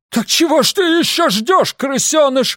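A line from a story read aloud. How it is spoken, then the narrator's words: Frightened yelling. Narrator (Russian): заорала она испуганно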